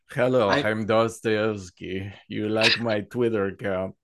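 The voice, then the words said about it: Deliberately bad put-on Russian accent. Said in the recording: “my horrible attempt at a Russian accent ... Yeah, it is horrible.”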